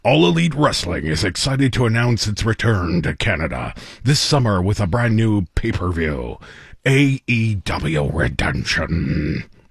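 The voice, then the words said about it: Wrestling announcer voice. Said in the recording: “in my best wrestling announcer voice”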